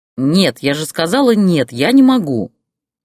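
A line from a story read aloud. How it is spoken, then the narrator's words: Angry growl, mother. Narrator (Russian): зло прорычала мать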